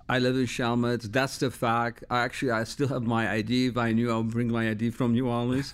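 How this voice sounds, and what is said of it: Slight foreign accent. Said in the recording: “you obviously have a little bit of an accent.”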